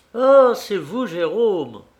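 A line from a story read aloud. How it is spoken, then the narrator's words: Exclaiming. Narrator (French): s'écria Paul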